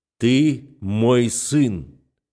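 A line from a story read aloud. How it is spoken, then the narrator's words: Menacing. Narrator (Russian): грозно говорит Рашид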